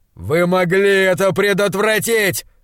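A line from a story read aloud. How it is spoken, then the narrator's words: Shouted. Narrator (Russian): закричал он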